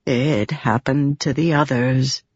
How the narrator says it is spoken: Pattern said, his voice softer now

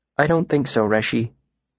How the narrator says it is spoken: he said, his voice flat

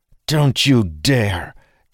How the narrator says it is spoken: Dalen growled ferociously

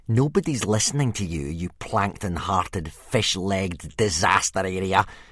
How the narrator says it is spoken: sneered Snotlout

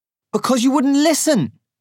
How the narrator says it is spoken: Selin shouts

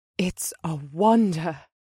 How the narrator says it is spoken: she breathed in an amazed tone

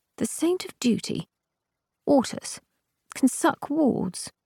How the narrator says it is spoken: You said feebly

